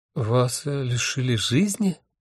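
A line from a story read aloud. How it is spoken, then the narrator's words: Bewildered question. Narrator (Russian): растерянно спросила Доротея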